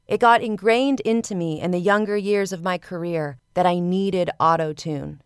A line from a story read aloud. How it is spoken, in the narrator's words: says